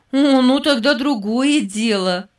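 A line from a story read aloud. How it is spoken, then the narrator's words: Laughing. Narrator (Russian): Рассмеялась Эстер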